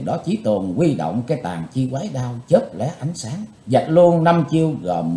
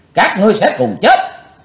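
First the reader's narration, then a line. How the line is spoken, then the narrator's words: Bloodied loud shout. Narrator (Vietnamese): Chí Tôn chùi sạch máu miệng quát lớn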